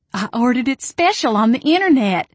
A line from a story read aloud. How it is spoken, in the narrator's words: she squealed as she ran into the back room